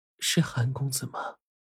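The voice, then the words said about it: Very weak, feeble voice. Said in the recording (Chinese): “用一种极其虚弱的声音说”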